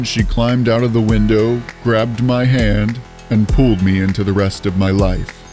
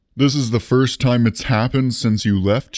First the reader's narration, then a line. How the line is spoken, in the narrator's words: she asked